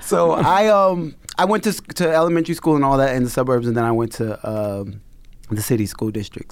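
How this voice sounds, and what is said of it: Slight white American dialect. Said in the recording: “I have a little bit of a white American dialect.”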